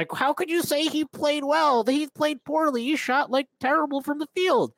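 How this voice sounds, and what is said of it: Imitates another person's voice. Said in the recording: “amazing Tyrese impersonation ... That actually sounds nothing like Tyrese”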